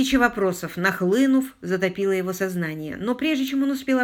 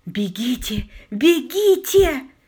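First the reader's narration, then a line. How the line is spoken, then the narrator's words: Woman exclaiming. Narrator (Russian): воскликнула женщина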